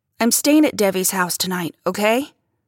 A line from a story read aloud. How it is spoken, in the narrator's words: I snapped